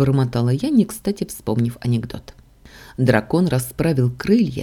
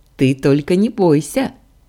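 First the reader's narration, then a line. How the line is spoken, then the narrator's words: Giggle inside head. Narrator (Russian): хихикнул Лоран у меня в голове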